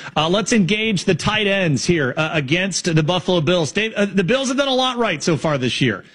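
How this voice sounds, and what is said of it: Usual voice. Nothing is said of it.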